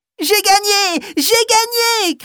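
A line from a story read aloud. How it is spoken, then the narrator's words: Shouting. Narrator (French): crie-t-elle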